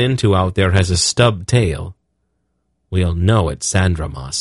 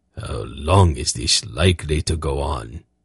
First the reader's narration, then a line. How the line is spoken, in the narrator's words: Zakath muttered to Geryon